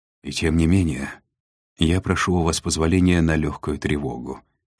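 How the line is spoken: Sighed. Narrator (Russian): вздохнул Треми

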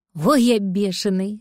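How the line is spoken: Plain, cat. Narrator (Russian): сказал кот

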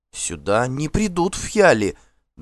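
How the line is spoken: Trembling objection. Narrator (Russian): дрожащим голосом возразила Фрейдис хозяйка

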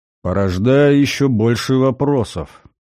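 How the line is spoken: Gloomy. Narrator (Russian): мрачно заметил Гальдер

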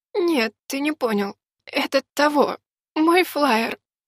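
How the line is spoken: Weak hoarse wheeze. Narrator (Russian): слабо просипела девушка

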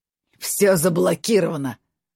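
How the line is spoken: Joyful hoarse wheeze. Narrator (Russian): радостно прохрипел он

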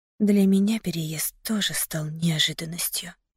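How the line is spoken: Whispered. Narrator (Russian): прошептала я

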